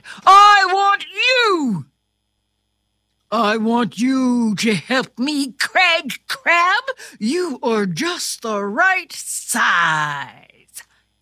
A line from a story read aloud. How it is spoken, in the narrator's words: King Crab pointed right at Craig and shouted